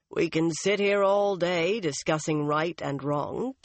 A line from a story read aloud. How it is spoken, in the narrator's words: Tom said dryly